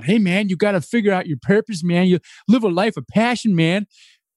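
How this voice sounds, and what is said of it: Put-on surfer dude accent. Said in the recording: “I don't even know what kind of accent that is. I don't know, some surfer dude.”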